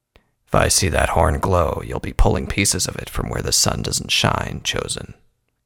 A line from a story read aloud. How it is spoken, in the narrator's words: he said, his baritone voice coldly menacing